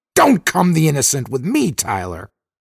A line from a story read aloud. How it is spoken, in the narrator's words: Dixon snapped, slightly shrill